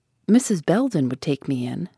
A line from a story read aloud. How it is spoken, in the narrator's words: said she